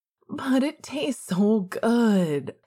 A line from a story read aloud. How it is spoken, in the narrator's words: Sirius whined